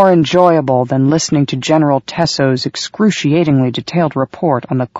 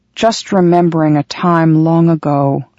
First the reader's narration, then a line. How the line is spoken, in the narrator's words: the commander said in a wistful voice